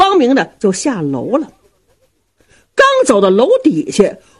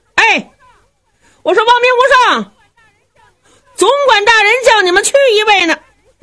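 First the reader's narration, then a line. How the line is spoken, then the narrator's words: Someone shouting. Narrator (Chinese): 下边有人嚷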